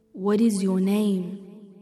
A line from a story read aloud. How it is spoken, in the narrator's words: Laith asked, his booming voice